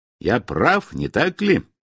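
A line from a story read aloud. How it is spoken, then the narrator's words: Through clenched teeth. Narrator (Russian): процедил он сквозь сжатые зубы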